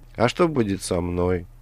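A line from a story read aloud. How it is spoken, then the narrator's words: Sad question. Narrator (Russian): печально спросила Алиса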